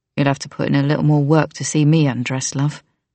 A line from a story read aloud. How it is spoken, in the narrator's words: he said with a low laugh